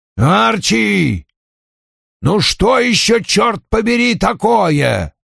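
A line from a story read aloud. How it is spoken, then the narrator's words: Distant roar from upstairs. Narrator (Russian): проревел Вульф с верхнего этажа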